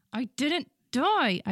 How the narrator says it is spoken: I said furiously

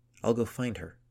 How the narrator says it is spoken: she said

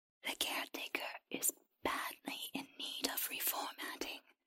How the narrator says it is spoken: the creature whispered

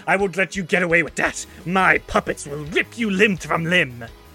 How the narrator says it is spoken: snarling and says

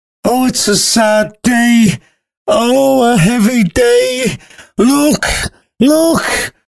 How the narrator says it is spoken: sobbed the nurse

